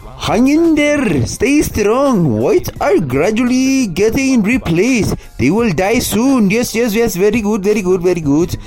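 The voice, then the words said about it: Mock South Asian accent. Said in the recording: “do a Pajit voice”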